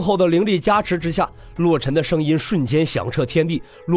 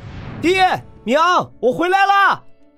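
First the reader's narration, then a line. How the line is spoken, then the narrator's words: Magically amplified shout. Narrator (Chinese): 陆晨以灵力扩充声音向下喊道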